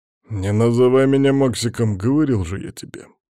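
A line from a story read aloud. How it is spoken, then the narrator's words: Grumbled. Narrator (Russian): пробурчал Ковалев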